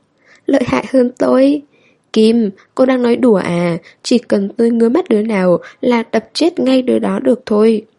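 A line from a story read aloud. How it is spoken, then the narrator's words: Bursting into laughter. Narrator (Vietnamese): Cá mập hổ cười phá lên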